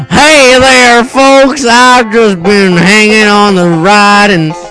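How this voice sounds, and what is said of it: Redneck character voice. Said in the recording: “Billy Bob Joe, the redneck.”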